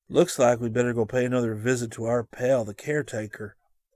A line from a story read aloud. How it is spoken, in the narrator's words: Scotty murmured